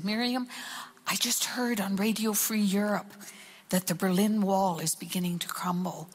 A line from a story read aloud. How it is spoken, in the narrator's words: he turned and whispered to me, he said